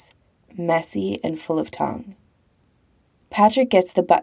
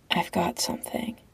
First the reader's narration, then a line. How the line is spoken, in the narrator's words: Patrick whispers back